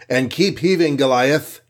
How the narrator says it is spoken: he called out

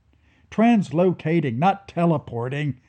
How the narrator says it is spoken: snapped Becca

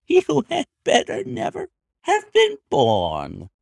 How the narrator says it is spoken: here came the nervous giggle again

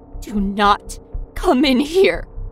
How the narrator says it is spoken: My voice trembled on every word

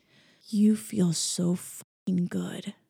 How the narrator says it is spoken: Christian grunted

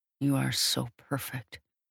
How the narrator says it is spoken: I whisper

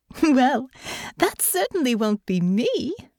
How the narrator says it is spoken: Honor laughed

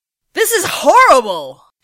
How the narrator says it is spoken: she cried

